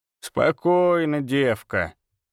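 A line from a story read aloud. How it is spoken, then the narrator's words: Creaky voice. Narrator (Russian): проскрипела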